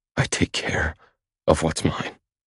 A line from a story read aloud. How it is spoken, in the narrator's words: I whisper